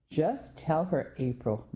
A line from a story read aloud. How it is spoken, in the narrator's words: my dad said